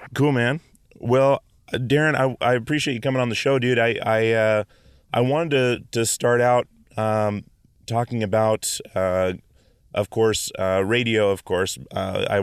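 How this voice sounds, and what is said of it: Rough, damaged voice. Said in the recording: “my voice is a little fucked up. I just got over the stomach flu.”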